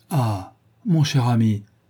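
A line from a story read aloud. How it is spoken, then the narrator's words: Exclaiming. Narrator (French): s'écria Lady Narborough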